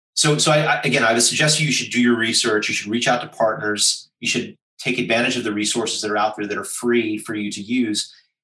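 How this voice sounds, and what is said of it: Strong American accent. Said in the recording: “my outrageous American accent”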